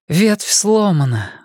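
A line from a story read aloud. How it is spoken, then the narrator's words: Breathless exhale. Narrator (Russian): выдохнула Энея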